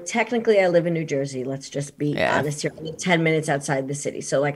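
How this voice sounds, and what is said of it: New York accent. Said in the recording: “I forget I have an accent because I speak to Brits all day long, and then there's this New Yorker thing that just happens to come out of my mouth.”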